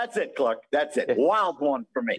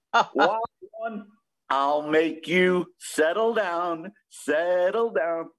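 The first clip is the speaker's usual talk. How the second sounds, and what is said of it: Sung imitation of another person's voice. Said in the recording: “I'm going to do my Bobby Rydell impression”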